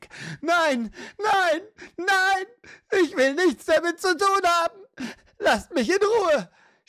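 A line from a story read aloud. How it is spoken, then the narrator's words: Older woman's natural scream. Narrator (German): schrie, ihre Stimme, jetzt ganz die einer normalen, etwas älteren Frau, nicht mehr verstellt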